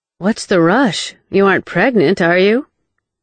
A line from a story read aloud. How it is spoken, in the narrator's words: her mother's familiar resigned sigh